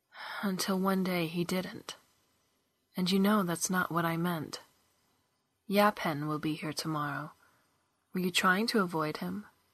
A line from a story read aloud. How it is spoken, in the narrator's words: Kestrin sighed